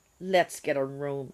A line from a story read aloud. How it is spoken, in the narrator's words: said